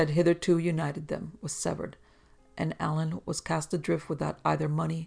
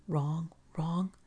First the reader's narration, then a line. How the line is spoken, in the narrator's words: he was heard to mutter feebly